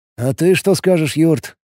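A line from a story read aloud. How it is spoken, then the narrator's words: Plain. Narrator (Russian): спросил Алекс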